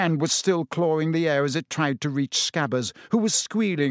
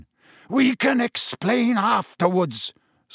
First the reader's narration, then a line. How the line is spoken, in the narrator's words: snarled Black